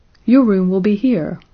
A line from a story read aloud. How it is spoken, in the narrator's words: they cried in turn